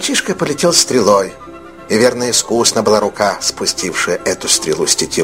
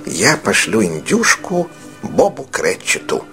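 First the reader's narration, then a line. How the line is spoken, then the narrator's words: Muttered, laughing with delight. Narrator (Russian): пробормотал Скрудж, и от восторга так и покатился со смеху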